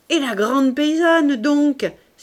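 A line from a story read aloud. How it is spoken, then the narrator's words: Crying out. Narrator (French): s'écria Mahoudeau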